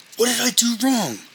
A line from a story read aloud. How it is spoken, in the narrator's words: He blurted